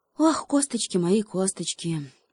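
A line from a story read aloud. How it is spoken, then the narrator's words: Groaning hedgehog. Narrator (Russian): прокряхтел еж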